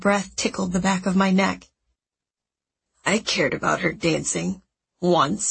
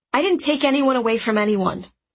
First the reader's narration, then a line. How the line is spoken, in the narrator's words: I snapped